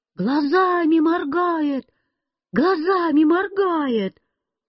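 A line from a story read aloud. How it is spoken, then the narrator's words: Sudden crowd shouting. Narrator (Russian): вдруг все закричали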